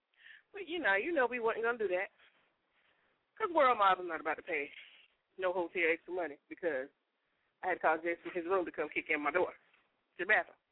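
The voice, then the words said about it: Out of breath. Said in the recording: “that's why I'm out of breath because we were sitting here moving in the middle of the show”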